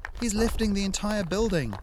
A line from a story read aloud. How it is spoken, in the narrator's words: Ariadne shouted over the dull roar